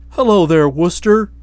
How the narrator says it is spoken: he cried buoyantly

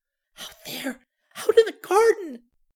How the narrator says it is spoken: cried weakly

